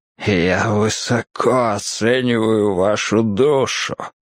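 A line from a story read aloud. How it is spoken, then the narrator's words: Hoarse rasp. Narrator (Russian): прохрипел Арчер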